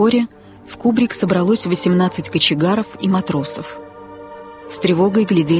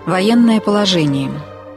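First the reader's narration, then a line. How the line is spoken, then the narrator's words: Firm voice. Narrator (Russian): крепким голосом сказал капитан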